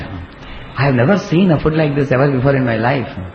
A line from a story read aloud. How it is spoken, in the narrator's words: The village rat exclaimed